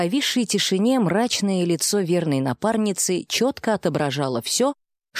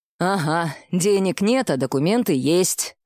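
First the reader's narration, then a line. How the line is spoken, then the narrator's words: Snorting, wry. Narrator (Russian): снова хмыкнул Добрынич из миграционного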